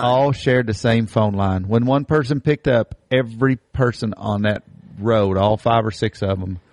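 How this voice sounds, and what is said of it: Rural hillbilly accent. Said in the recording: “Us hillbillies, we really are hillbillies... anybody can tell from our accent”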